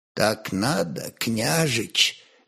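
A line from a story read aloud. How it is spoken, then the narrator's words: Soft answer. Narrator (Russian): мягко ответил он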